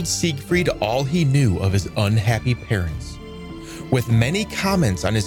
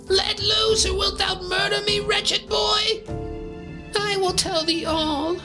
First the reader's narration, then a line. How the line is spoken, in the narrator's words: screamed the dwarf in terror